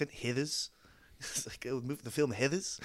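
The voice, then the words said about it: Attempted Kiwi accent, Beatle-like. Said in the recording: “great Kiwi accent ... Sounded a little bit like a Beatle there. ... When you said the word alone, it sounded great. And then when you put it in a sentence, you sounded like a Beatle.”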